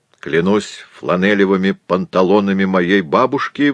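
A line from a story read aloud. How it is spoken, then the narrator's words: Roared. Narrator (Russian): взревел М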